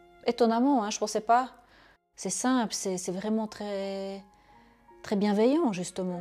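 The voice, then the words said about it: Belgian Charleroi-region French accent. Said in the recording (French): “mon accent de Châtelois”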